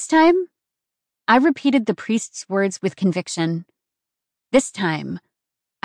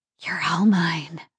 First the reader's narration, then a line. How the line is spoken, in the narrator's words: I breathed against his lips